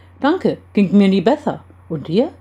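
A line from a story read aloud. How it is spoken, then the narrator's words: Cheerful answer. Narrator (German): antwortete dieser ebenso fröhlich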